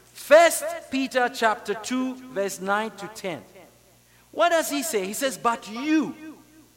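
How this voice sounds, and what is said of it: Non-native English accent. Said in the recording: “I speak English with an accent”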